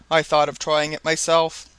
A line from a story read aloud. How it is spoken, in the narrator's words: replied Hobson